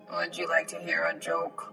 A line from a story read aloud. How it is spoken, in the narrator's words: in a comically monotoned, robotic voice